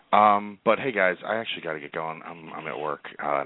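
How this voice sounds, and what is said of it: Quiet, hushed speaking voice. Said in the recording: “I'm talking in my quiet work voice”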